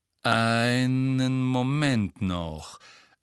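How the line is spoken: Wizard, slow. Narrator (German): sagte der Zauberer langsam

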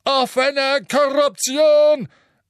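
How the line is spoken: Portly wizard's portrait thundering. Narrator (German): donnerte das Porträt des beleibten, rotnasigen Zauberers

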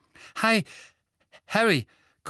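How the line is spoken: Gasping. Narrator (German): keuchte er

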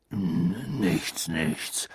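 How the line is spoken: Murmuring. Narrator (German): murmelte Hagrid

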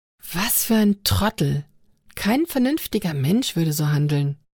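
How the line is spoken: Hissed. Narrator (German): zischte Anna

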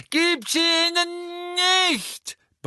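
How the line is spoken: Frantic roar. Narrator (German): brüllte Neville offenbar außer sich

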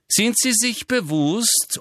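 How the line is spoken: Loud interruption. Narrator (German): unterbrach ihn Umbridge laut

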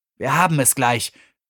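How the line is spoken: Hissing. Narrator (German): zischte Zobotta Megan zu

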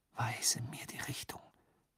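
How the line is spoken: Whispering. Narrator (German): flüsterte er seinem Zauberstab zu

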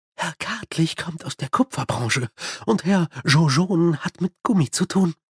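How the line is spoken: Whispering. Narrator (German): flüsterte Madame

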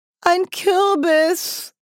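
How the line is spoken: Cry while slipping into water. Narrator (German): rief Nanny, als sie ins Wasser rutschte

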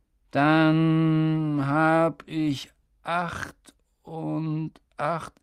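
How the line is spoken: Slow. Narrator (German): sagte er langsam

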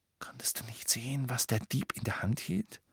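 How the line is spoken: Whisper. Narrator (German): flüsterte Ron

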